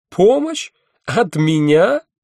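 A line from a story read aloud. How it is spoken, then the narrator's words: Laughing. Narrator (Russian): расхохоталась она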